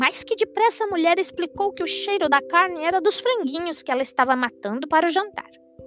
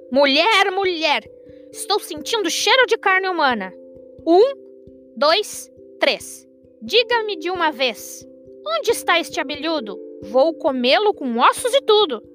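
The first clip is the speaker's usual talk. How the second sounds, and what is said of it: Booming, thunderous shouting voice. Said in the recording (Portuguese): “gritando com uma voz de trovão”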